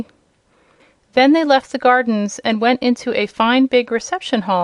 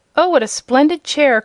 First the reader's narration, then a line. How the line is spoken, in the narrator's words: cried Dorothy, clasping her hands admiringly